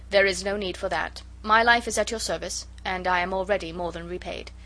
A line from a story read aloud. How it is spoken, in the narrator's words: he said coldly